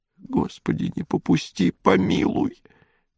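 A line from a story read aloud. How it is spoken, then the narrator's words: Soundless whisper, old man. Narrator (Russian): беззвучно шептал старик запекшимися губами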